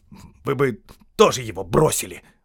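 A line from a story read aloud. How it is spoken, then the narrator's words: Snapped back. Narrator (Russian): огрызнулся Дори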